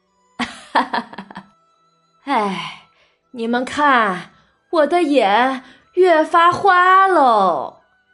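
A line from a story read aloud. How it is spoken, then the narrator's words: Laughing, then sighing. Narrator (Chinese): 贾母笑着，叹了一声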